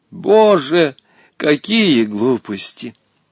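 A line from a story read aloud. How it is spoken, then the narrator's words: Sigh. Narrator (Russian): вздохнула Наталья Кузьминишна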